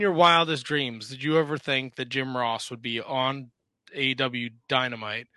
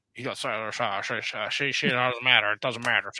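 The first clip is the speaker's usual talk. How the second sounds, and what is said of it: Jim Ross impression. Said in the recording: “You only did that to do a JR impression ... I do the JR ... Jim Ross, the voice.”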